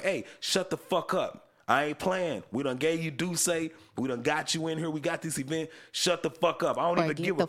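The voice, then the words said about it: Imitates another person's DC accent. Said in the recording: “he had that DC accent”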